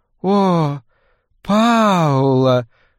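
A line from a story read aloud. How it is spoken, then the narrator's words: Languid relaxed moan. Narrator (Russian): расслабленно простонала она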